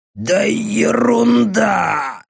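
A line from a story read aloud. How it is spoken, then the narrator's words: Forced-out words. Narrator (Russian): выдавил он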